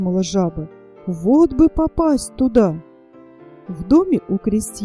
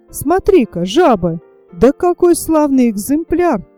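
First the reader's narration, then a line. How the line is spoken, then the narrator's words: Exclaimed. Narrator (Russian): воскликнул натуралист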